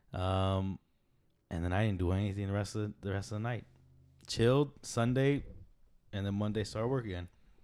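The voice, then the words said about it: Slightly deep, recovering hoarse voice. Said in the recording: “I think my voice is coming back finally. It feels a little better... it's not as deep”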